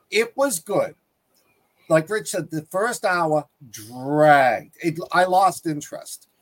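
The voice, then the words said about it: Boston accent. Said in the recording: “and I have a Boston accent.”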